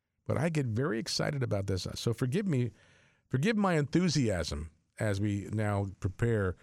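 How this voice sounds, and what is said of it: Usual voice. Nothing is said of it.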